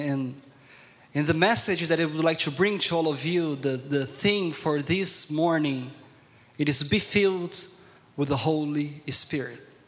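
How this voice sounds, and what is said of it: Strong accent. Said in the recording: “my strong accent”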